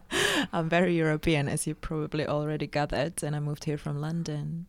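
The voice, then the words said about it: Slight Czech accent. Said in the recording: “you had a little, there was like a German thing, but not enough to be like full blown ... a Pragian accent”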